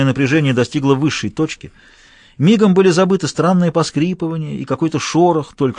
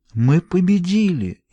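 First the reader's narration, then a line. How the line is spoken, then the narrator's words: Amazed awed murmur. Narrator (Russian): изумленно пробормотала Таппинс, и в ее тоне слышался благоговейный страх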